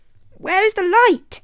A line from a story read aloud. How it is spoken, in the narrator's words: cried